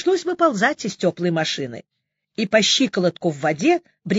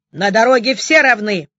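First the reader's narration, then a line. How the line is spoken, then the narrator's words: Barked by traffic officer. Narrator (Russian): рявкнул славный представитель ГИБДД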